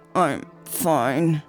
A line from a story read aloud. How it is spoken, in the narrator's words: he grunted